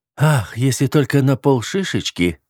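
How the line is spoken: Languid breathy plea. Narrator (Russian): выдохнула она и попросила томным голосом

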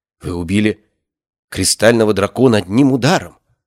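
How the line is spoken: Trembling shocked whisper. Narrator (Russian): прошептала лучница, ее голос дрожал от потрясения

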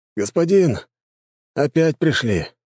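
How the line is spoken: Tired report. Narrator (Russian): устало доложили гвардейцы

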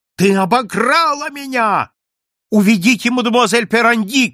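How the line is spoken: Shout. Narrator (Russian): крикнул мне судебный пристав

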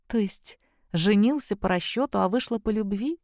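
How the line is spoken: Soft laugh. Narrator (Russian): тихо рассмеялась Зоя

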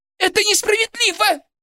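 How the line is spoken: Shrill squeal. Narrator (Russian): взвизгнула Борисова

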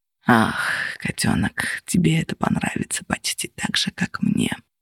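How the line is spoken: Purring. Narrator (Russian): промурлыкал он

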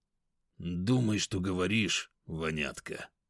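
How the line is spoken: Quiet. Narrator (Russian): Тихо проговорил он

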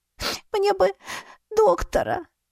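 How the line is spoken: Sobbing. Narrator (Russian): всхлипнула я

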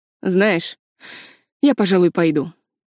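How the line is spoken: Cold. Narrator (Russian): холодно сказал Филипп

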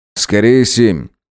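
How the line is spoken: Tired explanation. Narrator (Russian): устало пояснил Дронго

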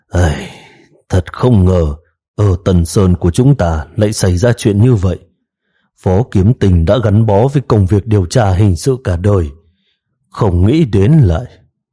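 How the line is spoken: Heavy sigh. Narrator (Vietnamese): Phùng Tiêu thở dài nặng nề, nói

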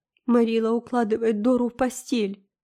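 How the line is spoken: Sobbing. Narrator (Russian): всхлипывая, сообщил Дэви

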